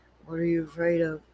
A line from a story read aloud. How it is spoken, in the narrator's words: he murmured softly, smiling